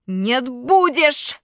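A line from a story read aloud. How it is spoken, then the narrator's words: Yelling. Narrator (Russian): заорал я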